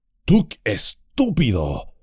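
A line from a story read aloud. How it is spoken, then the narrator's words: Wizard growling. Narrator (Spanish): gruñó el mago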